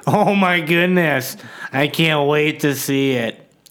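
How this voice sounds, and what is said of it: Sarcastic fake enthusiasm. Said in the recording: “I'm being sarcastic”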